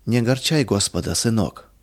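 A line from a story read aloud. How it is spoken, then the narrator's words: Soft. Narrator (Russian): мягко сказала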